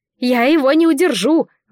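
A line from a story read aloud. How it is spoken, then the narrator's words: Shout. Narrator (Russian): выкрикнула Анелла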